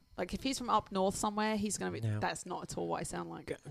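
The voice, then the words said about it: Posh English accent. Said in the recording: “he is, I believe, from England ... I feel like I am the right person to read this out ... I'm using my posh voice right now”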